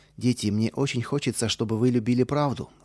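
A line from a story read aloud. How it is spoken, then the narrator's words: Plain. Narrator (Russian): сказала Мэри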